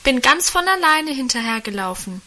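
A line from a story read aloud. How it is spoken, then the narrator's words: Calling out. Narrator (German): rief da Guste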